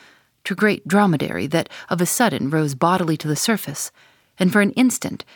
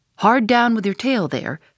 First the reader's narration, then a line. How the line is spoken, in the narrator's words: cried a second to another